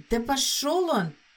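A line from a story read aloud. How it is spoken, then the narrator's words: Hiss. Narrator (Russian): прошипела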